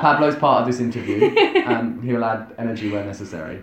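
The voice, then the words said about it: British (UK) accent. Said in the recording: “I come from the UK, and everyone works that out within the first 15 minutes of talking to me”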